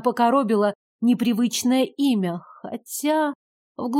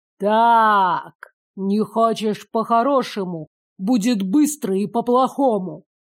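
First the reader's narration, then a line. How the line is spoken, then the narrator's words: Hissed with intense malice. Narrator (Russian): С нетерпимой злобой процедил наставник из чужих видений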